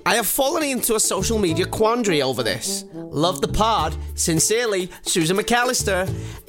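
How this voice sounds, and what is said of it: Put-on American accent. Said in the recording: “I do apologise for doing the American accent. I just wanted to bring it to life.”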